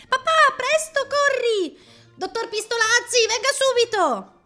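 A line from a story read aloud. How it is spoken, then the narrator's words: Girls shrieking. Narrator (Italian): Dario le sentì strillare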